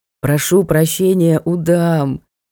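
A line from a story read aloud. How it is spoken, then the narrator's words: Groaning. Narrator (Russian): простонал Ник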